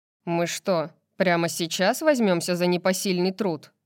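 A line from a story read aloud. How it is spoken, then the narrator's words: Grumbled. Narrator (Russian): проворчал Флинн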